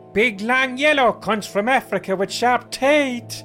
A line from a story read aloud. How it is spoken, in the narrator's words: I shouted